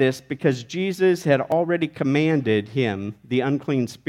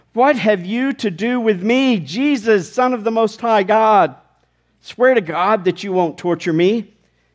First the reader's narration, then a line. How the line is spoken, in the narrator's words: shouting